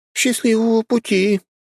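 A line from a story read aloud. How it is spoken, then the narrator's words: Moaning farewell. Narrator (Russian): простонали мне вслед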